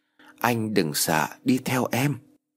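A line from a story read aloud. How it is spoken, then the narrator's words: Cold, no longer shy. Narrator (Vietnamese): nói bằng cái giọng lạnh lùng khác hẳn với giọng e thẹn lúc trước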